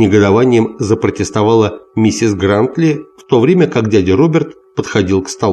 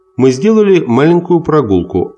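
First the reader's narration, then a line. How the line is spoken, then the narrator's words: Plain. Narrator (Russian): ответил Крис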